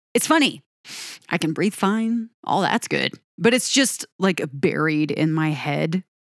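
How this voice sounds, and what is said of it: Stuffy, congested voice. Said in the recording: “I am actually fighting some sort of explosion of my allergies ... I feel like I sound super stuffy”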